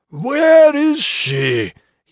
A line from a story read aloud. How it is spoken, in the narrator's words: yelled, throats and fire making the demand together